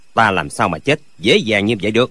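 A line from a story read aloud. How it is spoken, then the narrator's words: Cold. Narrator (Vietnamese): Lệnh Hồ Xung lạnh lùng nói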